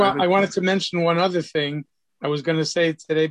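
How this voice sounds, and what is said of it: Usual voice. Nothing is said of it.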